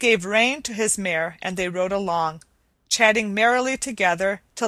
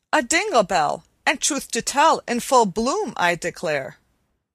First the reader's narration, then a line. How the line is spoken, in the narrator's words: Mary exclaimed